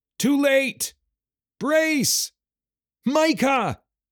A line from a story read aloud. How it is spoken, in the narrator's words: screamed Nathan